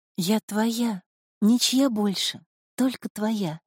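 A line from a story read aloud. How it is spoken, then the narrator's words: Whisper. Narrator (Russian): прошептала Снежинка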